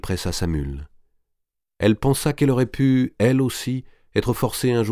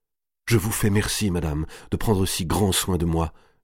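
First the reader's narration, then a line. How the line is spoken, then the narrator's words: Tearful murmur. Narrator (French): murmura-t-elle les larmes aux yeux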